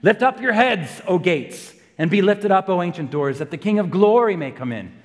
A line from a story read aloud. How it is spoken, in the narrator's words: the general shouts again